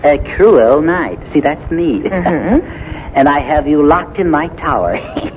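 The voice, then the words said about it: Wicked villain voice. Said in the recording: “You sound awfully wicked.”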